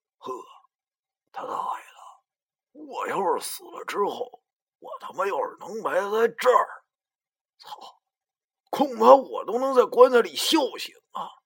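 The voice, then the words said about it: Quiet, hushed admiring exclamation. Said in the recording (Chinese): “小声赞叹道”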